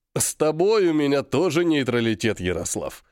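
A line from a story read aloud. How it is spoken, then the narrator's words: After laughter and coughing. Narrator (Russian): Отсмеявшись, откашлившись, сообщил он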